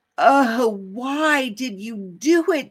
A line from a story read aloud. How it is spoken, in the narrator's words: They groaned